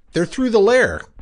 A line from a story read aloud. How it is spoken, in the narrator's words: exclaimed Carpenter